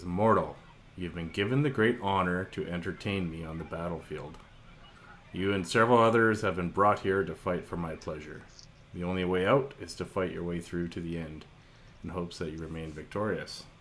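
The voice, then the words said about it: Deep character voice. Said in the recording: “a deep voice says”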